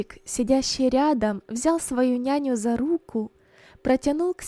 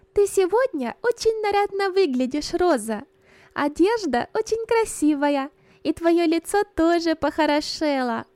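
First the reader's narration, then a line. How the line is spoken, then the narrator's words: Joyful little girl. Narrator (Russian): радостно, маленькая Берта сказала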